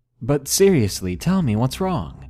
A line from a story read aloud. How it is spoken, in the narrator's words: I awkwardly laughed and said nervously